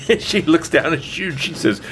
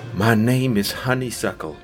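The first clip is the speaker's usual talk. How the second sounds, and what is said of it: Soft, sweet character voice. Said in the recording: “singing in the softest, sweetest voice ... in this sweet voice”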